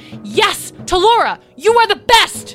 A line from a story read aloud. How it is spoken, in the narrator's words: she yelled